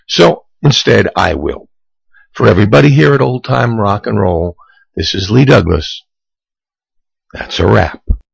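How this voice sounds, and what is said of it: Cracking, strained voice. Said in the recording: “my voice is cracking really bad. No matter what I do, I can't seem to make it go away right now.”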